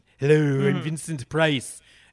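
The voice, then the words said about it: Vincent Price impression. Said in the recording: “do a fantastic Vincent Price impersonation.”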